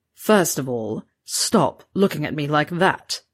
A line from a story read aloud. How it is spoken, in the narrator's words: Severus snarled